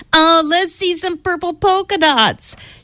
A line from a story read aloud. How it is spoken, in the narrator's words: One yelled out